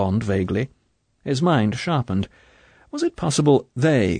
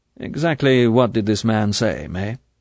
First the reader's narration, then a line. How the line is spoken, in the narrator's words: he asked, keeping his voice indifferent